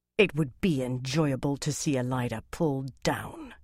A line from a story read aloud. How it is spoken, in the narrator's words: she said in an unpleasant voice